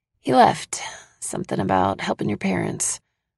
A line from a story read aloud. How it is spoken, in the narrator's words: I mutter